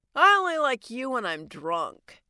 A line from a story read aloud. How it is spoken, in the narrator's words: she slurred